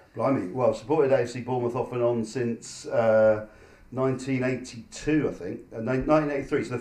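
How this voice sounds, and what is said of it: Hoarse voice. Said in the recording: “I'm a bit hoarse. ... I spent 90 minutes singing songs”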